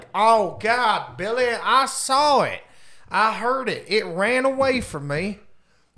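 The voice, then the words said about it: Poor put-on Southern accent. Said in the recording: “I'm sorry to do the southern accent there. It's poor.”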